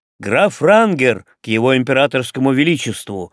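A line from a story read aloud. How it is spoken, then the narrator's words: Footman barked loudly. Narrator (Russian): гаркнул лакей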